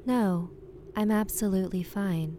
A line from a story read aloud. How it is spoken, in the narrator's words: said the woman very calmly